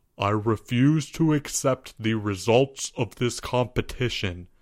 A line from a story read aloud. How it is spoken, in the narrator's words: announced Albert gravely